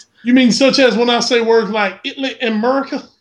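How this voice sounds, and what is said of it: Mild Southern US accent. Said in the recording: “my strong Southern country dialect. Mine isn't even that bad ... You actually don't have that bad of an accent ... unless you actually are trying to do a Southern accent”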